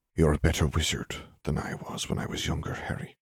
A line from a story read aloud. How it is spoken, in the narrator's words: Dumbledore whispered